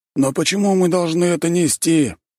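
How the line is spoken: Grumbling. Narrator (Russian): проворчал кто-то

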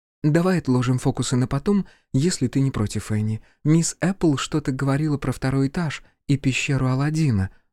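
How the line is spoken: Gentle reminder. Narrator (Russian): напомнила она мягко

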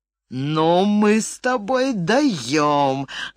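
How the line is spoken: Loud neighing laugh. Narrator (Russian): громко заржал он

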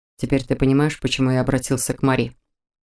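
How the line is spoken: Quiet inquiry. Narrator (Russian): Тихо поинтересовался Мор

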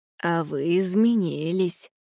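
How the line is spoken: Gentle, affectionate. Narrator (Russian): ласково произнес шляпник

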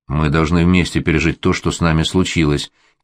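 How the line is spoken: Quiet female. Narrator (Russian): тихо сказала Аня

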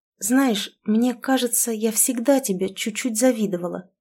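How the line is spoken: Very quiet confession. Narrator (Russian): тихо-тихо признаюсь

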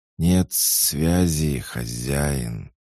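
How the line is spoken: Hiss. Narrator (Russian): прошипел Ерк

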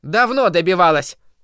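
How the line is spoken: Woman shouting from crowd. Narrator (Russian): выкрикнула из толпы женщина

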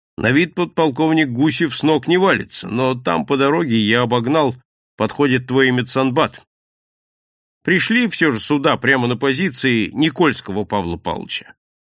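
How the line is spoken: Laughing, mock sternness dropped. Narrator (Russian): Серпилин рассмеялся и, сбросив напускную строгость, сказал Артемьеву

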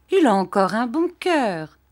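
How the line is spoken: Said cheerfully. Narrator (French): dit gaiement

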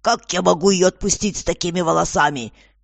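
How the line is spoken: Shouting. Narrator (Russian): снова крикнул

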